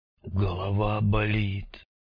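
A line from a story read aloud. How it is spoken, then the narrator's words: Bearded man, soft rustling voice. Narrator (Russian): Тихо, как сентябрьский листопад, прошелестел бородатый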